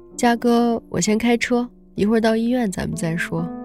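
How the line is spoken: Gentle. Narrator (Chinese): 他温柔的表示

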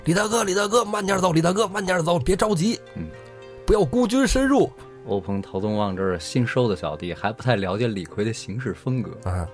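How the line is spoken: Two men shouting from behind. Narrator (Chinese): 欧鹏， 嗯， 欧鹏、陶宗旺， 啊，这俩 俩人在后边就喊

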